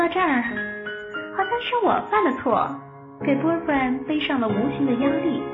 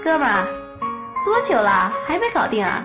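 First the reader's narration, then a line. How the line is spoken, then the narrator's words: Laughing male student. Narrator (Chinese): 寝室的男生最多笑着说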